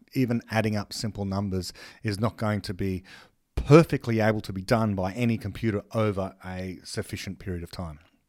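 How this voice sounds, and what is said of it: Speaker's own regional accent. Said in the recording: “my accent probably makes it seem like I'm talking about the snake”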